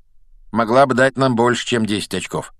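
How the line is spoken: Grumble. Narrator (Russian): проворчал Рон

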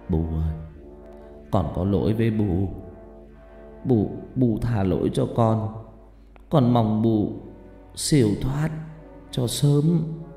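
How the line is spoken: Muttering. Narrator (Vietnamese): ông lẩm bẩm

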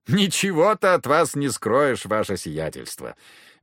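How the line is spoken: Sigh. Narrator (Russian): Брейгель вздохнул

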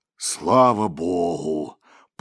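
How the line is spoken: Booming deep bass. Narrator (Russian): пророкотал он мощным басом

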